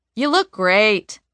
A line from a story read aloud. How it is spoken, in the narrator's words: who's always sewing yell says from across the room without looking up